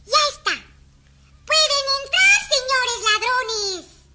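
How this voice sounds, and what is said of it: Shouting loudly. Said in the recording (Spanish): “¡Shh! ¡Calla! No grites, que pueden oírnos.”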